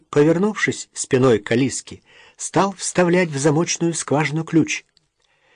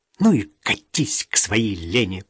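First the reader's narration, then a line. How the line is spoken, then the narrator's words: Hissing. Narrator (Russian): прошипела Алиска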